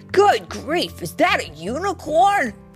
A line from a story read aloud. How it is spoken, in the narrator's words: he shrieked in great surprise